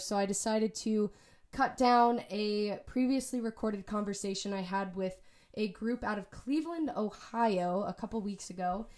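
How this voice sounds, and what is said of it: Sick-sounding voice. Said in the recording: “As you can probably tell from my voice, I'm a little sick”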